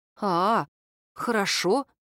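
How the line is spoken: Sighing. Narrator (Russian): вздохнула Катя

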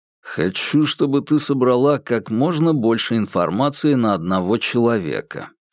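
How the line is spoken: Plain. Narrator (Russian): сказал Курц

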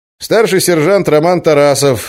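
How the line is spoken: Brisk young man. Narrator (Russian): бодро сообщил подошедший полицейский, молодой и румяный

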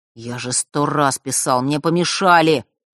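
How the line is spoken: Grumbling mutter. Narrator (Russian): пробурчал тот

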